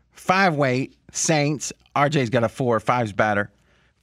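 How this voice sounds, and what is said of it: Imitation of Fez's voice. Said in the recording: “in a Fez voice ... I'm going to do it in a Fez voice ... the imitations”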